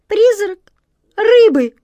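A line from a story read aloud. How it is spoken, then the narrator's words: Squeaking cat. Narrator (Russian): пискнула кошка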